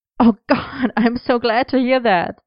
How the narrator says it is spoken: Merlin laughed

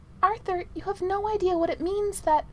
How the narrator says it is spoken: protested Merlin

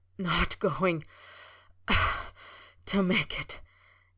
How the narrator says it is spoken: he gasped, shaking with the dagger-like pain

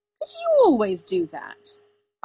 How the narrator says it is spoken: Arthur said, indignantly

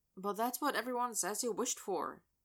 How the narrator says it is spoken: he murmurs to himself

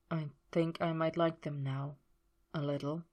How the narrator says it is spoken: he murmured

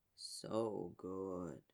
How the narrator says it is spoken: Yager murmured, voice almost a hum

